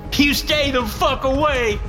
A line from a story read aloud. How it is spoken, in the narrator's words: the young man screamed